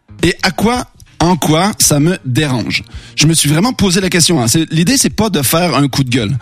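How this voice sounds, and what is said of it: Quebec French accent. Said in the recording (French): “croise rarement des Québécois à Angers... il n'y a pas un jour où on ne me parle pas de mon accent.”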